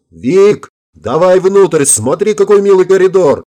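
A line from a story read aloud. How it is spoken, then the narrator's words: Yelling. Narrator (Russian): заорала Горобец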